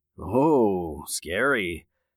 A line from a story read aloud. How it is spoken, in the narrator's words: Jake said sarcastically